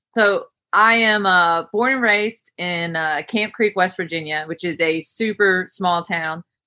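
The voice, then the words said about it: West Virginia accent. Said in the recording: “I'm from West Virginia. They either figure that out by way of my accent”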